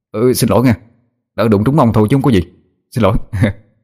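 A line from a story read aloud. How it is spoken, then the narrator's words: Flustered, hurried. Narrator (Vietnamese): rối rít nói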